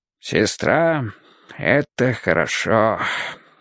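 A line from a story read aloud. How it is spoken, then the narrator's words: Sigh then cough. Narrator (Russian): вздохнул дядька и закашлялся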